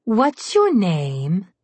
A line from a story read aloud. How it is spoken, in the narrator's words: the troll girl asked him in an airy and engaging voice